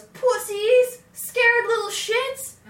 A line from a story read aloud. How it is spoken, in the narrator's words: Nate yelled after us